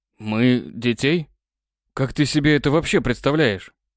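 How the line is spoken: Very surprised. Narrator (Russian): очень сильно удивился

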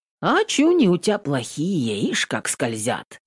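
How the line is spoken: Drawling. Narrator (Russian): протянул Качеда

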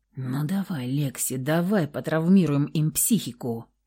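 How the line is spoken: Whisper in ear. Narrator (Russian): прошептал ей на ухо приятель

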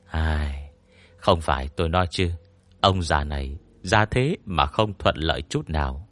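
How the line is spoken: Sighing lament. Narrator (Vietnamese): Tôn Mập thở dài cảm thán

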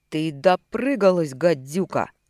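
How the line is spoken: Drunken growl. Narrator (Russian): прорычал уволенный вчера механик, пьяно покачнувшись

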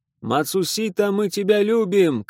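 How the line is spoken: Shouting. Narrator (Russian): кричал я

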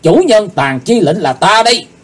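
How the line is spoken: Deep heavy shout. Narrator (Vietnamese): Chí Tôn nặng trầm hét

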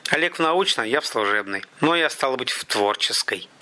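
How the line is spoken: Through gritted teeth. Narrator (Russian): процедил Заро

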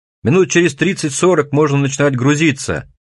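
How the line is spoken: Yelling right in ear. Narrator (Russian): Вопит и брызгается он прямо мне в ухо

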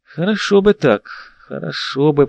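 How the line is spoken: Drawn-out. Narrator (Russian): протянул

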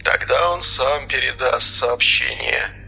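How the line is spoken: Crisp clipped speech. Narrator (Russian): отчеканил морской

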